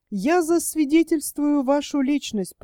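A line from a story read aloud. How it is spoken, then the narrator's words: Joking tone. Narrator (Russian): продолжал он все тем же шутливым тоном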